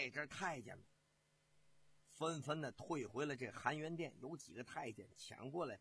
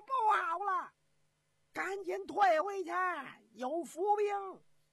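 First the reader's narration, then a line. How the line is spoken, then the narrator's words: Shouting in alarm. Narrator (Chinese): 仇世良大叫一声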